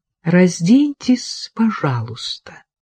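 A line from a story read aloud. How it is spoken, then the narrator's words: Gentle repetition. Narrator (Russian): мягко повторил он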